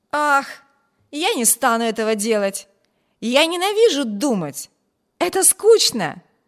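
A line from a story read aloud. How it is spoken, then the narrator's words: Cheerful exclamation. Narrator (Russian): Весело воскликнул Виберт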